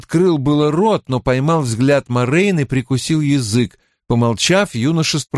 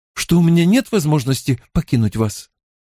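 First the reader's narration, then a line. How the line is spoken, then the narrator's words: Uncertain. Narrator (Russian): неуверенно произнесла Зарине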